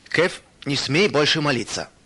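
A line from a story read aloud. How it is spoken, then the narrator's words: Stern. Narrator (Russian): строго сказал он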